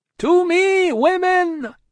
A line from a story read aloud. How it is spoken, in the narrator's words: cried Madame, his wife